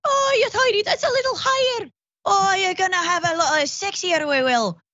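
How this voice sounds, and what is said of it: Put-on Scottish accent. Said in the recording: “do the rest of the show in a Scottish accent, but I kind of want it to be a Scottish, but still ... accent ... No, it's still Scottish ... going back and forth a little bit”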